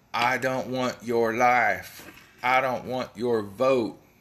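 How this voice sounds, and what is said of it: Imitates another person's voice, weak attempt. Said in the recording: “my best James Vanderbeek from whatever that football movie was impression. Sorry, it wasn't good.”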